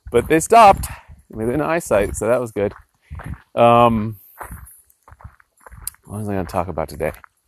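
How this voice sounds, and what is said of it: Worn-out, hoarse voice. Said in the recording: “I hollered and hollered and hollered. Now my voice is kind of shot.”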